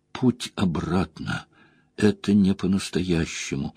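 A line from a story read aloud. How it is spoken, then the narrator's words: Sobbing. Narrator (Russian): Всхлипнув, Найнев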